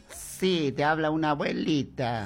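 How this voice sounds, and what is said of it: Old grandmother's voice. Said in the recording (Spanish): “cómo escucho una voz de abuelita, parece.”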